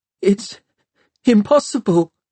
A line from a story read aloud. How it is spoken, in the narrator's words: Tom whimpered